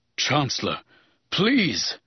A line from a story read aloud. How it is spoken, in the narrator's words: He gasps, desperate and helpless, his aristocratic demeanor invisible, his courage only a bitter memory